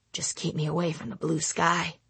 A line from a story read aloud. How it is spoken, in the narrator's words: I muttered to myself